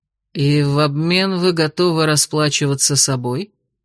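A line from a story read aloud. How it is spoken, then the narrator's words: Drawling. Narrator (Russian): протянул он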